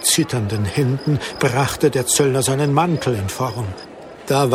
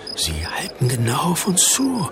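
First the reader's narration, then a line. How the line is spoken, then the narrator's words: Male whisper. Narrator (German): flüsterte Jakob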